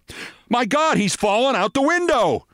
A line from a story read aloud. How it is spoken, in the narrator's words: cried a quick-witted editor